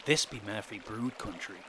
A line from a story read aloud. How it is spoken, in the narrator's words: some yokel said